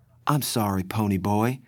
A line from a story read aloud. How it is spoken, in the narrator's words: she said softly